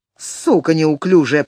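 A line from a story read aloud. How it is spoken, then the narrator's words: Growl. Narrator (Russian): прорычал он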